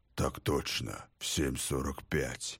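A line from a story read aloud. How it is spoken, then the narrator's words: Strained deep bass. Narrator (Russian): пробасил, словно бы через силу лейтенант, напоминавший в этот момент ручного медведя, которому нелегко дается человеческая речь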